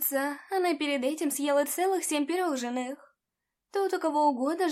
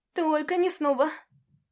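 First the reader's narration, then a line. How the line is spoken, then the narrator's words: Groaning. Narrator (Russian): простонала целительница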